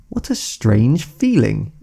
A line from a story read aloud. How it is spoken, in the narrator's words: exclaimed Alice